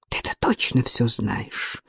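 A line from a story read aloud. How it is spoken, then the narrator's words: Muttered. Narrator (Russian): пробормотала Алена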